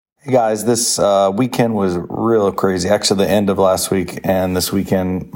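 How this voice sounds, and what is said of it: Hoarse voice. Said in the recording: “my voice is hoarse. You can hear that because I was talking all weekend”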